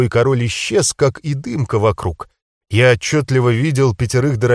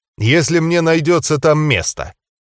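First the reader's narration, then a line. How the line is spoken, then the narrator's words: Snorting chuckle. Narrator (Russian): хмыкнул он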